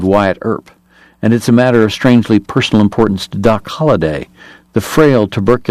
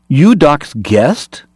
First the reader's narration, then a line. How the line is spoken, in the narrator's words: China Joe cried, recognizing Alex